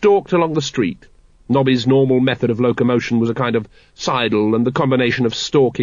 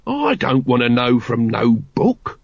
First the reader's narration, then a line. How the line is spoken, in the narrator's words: growled Nobby